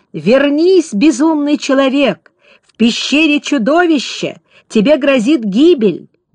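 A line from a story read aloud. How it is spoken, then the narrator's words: Shouting. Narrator (Russian): Тот кричал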